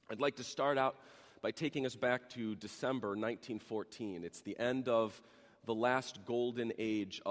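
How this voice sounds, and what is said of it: Deep, worn radio voice. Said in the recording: “I have my radio voice this morning ... it certainly took its toll on me physically”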